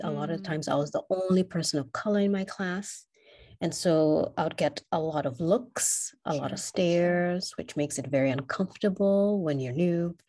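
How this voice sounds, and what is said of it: Speaks English with an accent. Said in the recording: “I would get a lot of questions about repeating what I just said because of my accent”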